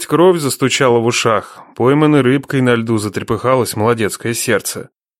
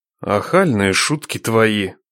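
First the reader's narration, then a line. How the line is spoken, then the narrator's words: Grumbling. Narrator (Russian): проворчал Нечай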